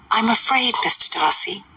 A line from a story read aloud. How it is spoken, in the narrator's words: observed Miss Bingley in a half-whisper